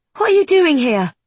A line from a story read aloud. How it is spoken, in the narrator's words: Ren asks urgently